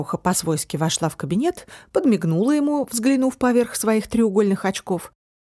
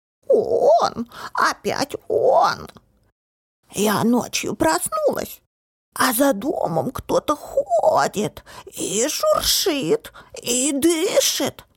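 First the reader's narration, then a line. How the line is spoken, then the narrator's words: Old woman, dramatic choking wheeze. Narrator (Russian): Захрипела старуха, драматично изображая, будто ее кто-то душит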